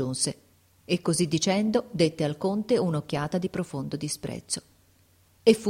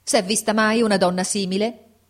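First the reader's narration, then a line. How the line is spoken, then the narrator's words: Shouted. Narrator (Italian): gridò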